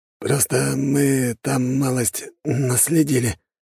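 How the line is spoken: Hoarse. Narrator (Russian): наконец хрипло говорит егерь

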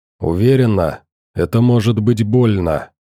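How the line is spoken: Asking again. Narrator (Russian): все же переспросил Морфей

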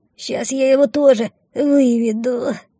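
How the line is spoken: Faint dying whisper. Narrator (Russian): умирающим голосом прошептала обмякшая мина

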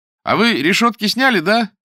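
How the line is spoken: Loud question from kitchen. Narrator (Russian): из кухни громко спрашивал Александр Иванушкин

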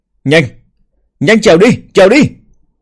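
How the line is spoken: Terrified yelling. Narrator (Vietnamese): Bàng Đằng kinh hãi đến biến sắc, gào lên

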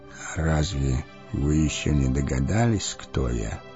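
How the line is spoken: Old man asking quietly. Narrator (Russian): тихо спросил старец

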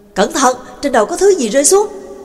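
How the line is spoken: Warning cry from behind. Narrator (Vietnamese): Lạc Ma phía sau kêu lên

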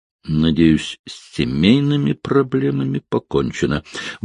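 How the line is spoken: Grumbled. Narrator (Russian): буркнул

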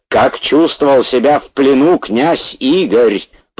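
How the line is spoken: Angry near-shout. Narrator (Russian): почти закричал профессор, опять испытывая прилив злости

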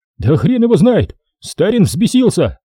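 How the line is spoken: Shout. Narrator (Russian): крикнул сержант

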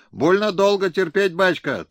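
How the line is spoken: Thin discordant crowd shouts. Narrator (Russian): тонкими голосами в разнобой кричали в ответ башкирцы

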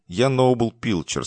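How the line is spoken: Plain. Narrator (Russian): сказал он

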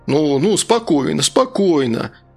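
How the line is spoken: Sighing, soothing. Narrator (Russian): Туск вздохнул

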